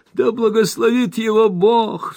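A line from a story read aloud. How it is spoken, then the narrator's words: Tearful emotional interjection. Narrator (Russian): вставил миссис Бардл, всхлипнув в приливе материнских чувств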